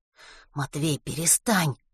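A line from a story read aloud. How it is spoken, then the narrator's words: Whisper. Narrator (Russian): прошептал Веня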